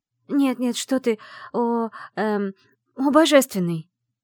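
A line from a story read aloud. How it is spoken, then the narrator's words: Hasty exclamation. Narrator (Russian): поспешно воскликнула она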